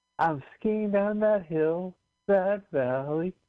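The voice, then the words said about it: Sung imitation of another person's voice. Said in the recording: “You want to hear my impression of Kate Bush skiing?”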